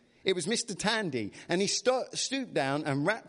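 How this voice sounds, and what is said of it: Usual voice. Nothing is said of it.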